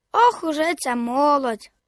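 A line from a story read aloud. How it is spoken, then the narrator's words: Sighing. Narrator (Ukrainian): Зітхнув він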